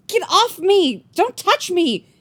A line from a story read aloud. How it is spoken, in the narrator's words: she was shouting